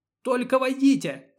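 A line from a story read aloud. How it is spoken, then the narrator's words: Terrified woman screaming in Latin. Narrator (Russian): кричала насмерть перепуганная женщина по латыни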